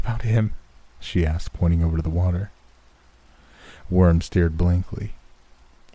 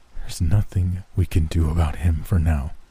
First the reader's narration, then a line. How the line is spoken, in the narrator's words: he said, his voice surprisingly calm even to his own ears